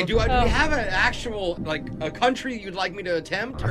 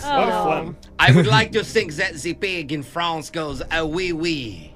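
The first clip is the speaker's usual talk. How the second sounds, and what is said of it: Put-on French accent. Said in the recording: “Are you trying to be French? ... very sexy accent and very accurate.”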